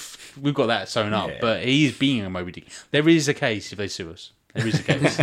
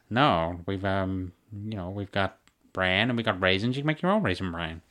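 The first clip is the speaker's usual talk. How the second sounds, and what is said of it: Peter Griffin cartoon impression voice. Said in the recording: “done your Peter Griffin impression”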